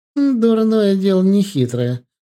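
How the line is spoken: Scornful snort. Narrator (Russian): фыркнула Костенко

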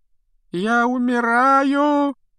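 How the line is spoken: Loud moaning. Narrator (Russian): громко стонал Малфой

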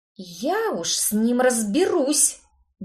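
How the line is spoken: Vengeful, through gritted teeth. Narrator (Russian): Мстительно процедила я сквозь зубы

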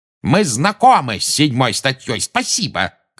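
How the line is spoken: Shouted. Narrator (Russian): крикнул Фадж

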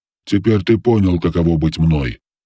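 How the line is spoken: Gloomy voice. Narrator (Russian): сказал голос мрачно

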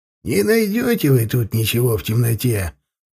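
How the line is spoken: Grumbling old man. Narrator (Russian): проворчал дед Терентий

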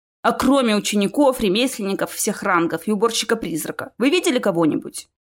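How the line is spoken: Irritated question. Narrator (Russian): раздраженно спросил Чес

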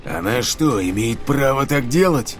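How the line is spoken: Growl from above. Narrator (Russian): прорычал кто-то сверху

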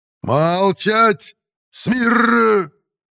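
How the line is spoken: Strained roar. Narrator (Russian): Заорал капитан, побагровев от натуги

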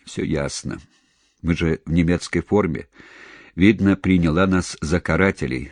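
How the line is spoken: Plain. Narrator (Russian): сказал Громов

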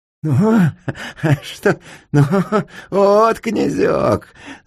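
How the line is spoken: Laughing ghoul. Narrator (Russian): засмеялся упырь

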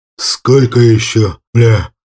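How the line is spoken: Exhausted hoarse rasp. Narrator (Russian): он, окровавленный, обессиленно прохрипел

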